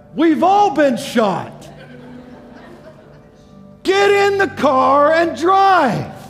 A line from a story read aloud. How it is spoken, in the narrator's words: The colonel yells back